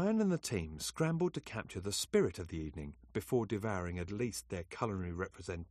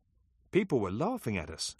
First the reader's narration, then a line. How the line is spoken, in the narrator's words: exclaimed Albert